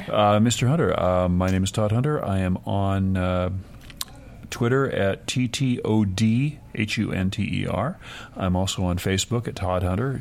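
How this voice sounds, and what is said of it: Sexy radio voice. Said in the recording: “You do have a sexy radio voice.”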